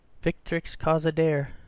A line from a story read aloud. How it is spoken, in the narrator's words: said Michael gloomily